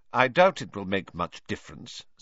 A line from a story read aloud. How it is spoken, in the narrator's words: said Professor McGonagall coldly